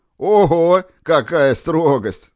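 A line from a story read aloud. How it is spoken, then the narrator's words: Laughing. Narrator (Russian): засмеялся Корягин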